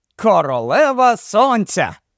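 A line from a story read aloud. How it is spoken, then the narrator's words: Very loud exclamation. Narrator (Ukrainian): вигукнув він аж надто голосно на думку Дейна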